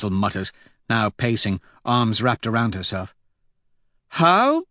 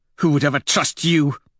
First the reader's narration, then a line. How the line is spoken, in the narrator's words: Thistle snaps